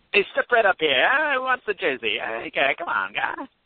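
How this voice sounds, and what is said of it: Old-timey carnival barker voice. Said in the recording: “dressed as, like, a carny in, like, one of the booths at the Dome, like, selling jerseys with, like, an old-timey accent.”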